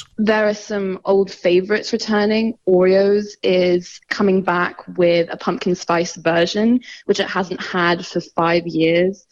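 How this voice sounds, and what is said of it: Hong Kong accent. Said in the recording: “Obvious from her accent. ... I'm from Hong Kong.”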